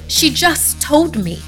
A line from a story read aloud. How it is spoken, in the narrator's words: I cried